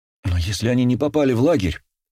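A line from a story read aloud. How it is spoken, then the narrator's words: Excited exclamation. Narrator (Russian): взволнованно воскликнула она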